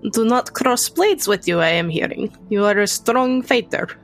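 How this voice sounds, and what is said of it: Put-on Soviet-style foreign accent. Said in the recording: “you can probably tell where I come from with accent ... Soviet communist interests”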